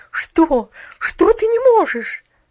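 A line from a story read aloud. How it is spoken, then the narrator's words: Incredulous exclamation. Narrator (Russian): воскликнула миссис Керю, как будто сомневаясь в том, что ее уши слышат правильно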